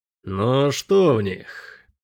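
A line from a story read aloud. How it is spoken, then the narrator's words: Thoughtful. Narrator (Russian): задумчиво проговорил Келин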